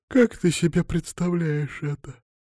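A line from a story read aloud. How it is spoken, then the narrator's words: Sleepy yawning question. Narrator (Russian): поинтересовалась Алина сонно и зевнула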